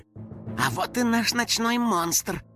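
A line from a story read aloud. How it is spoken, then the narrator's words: Whisper. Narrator (Russian): прошептал Финик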